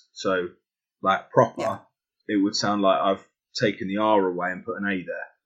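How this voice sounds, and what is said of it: Accent that drops the R sound. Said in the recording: “It's not a hard R like I use ... With my accent, I tend to drop letters and add letters ... my accent tends to do that quite a lot”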